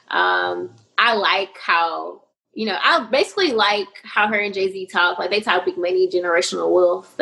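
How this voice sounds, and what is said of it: Slight Southern US twang. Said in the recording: “her nice Southern twang just a little bit”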